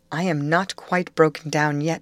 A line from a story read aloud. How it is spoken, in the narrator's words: she said